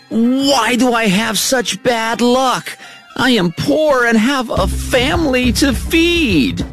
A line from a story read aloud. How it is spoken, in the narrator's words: He was angry and cried